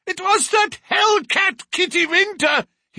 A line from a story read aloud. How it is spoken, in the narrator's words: he cried